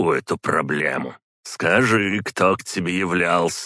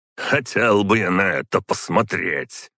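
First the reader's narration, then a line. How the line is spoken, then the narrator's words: Skeptical snort. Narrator (Russian): хмыкнул Водомир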